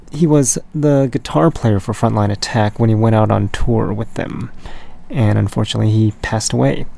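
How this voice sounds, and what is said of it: Raspy voice. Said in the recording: “my raspy voice”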